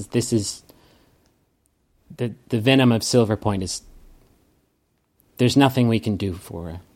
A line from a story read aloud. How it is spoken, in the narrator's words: Sloane looks sadly at you and says